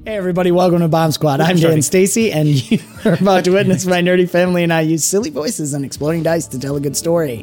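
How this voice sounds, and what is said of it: Strained, partly lost voice. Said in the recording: “I'm still losing my voice, but I think it'll hang in there... It's just never fully returned.”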